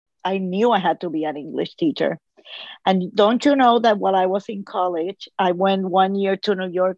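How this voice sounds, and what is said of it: Strong Hispanic accent in English. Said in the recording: “I am always self conscious about my accent because apparently I have a very strong accent in English ... I'm Hispanic”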